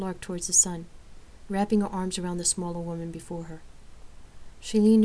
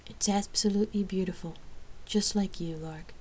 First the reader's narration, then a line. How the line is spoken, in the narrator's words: Rain softly complimented